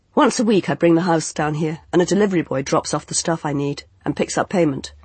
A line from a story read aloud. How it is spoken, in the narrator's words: he said